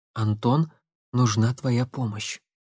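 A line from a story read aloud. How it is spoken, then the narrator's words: Low voice. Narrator (Russian): вполголоса произнесла Татьяна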